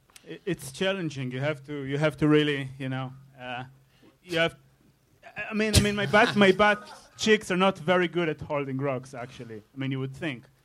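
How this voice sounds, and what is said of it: German accent. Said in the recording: “I'm not from Germany. I'm from Israel, but I have German accent. ... that fucking look and accent”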